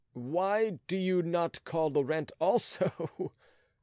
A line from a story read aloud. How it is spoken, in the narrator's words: said he, laughing